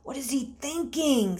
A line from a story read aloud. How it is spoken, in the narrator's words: Stephen said quietly to Timothy